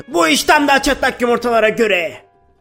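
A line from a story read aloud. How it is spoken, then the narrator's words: Group shouting. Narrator (Turkish): diye bağırdılar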